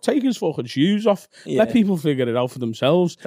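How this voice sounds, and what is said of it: Imitates another person's voice. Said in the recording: “That's a great impression. That's a fucking great impression.”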